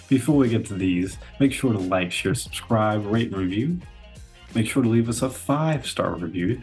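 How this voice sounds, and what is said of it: Oklahoma drawl. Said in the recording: “this Oklahoma drawl is not good. It's not good at all. ... This so Oklahoma drawl.”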